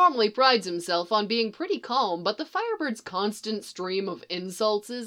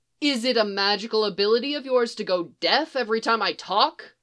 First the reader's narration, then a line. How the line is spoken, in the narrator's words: Barry snaps, starting to lose his temper